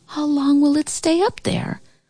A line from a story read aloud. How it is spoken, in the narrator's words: The Sandman spoke softly